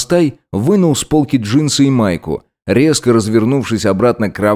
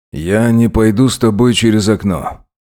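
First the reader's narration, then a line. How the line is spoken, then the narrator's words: Heavy voice. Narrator (Russian): заявил он отяжелевшим голосом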